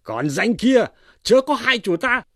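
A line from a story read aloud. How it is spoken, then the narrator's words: Loud shout. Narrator (Vietnamese): quát to lên rằng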